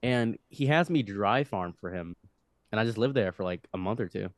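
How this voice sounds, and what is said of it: Usual voice. Nothing is said of it.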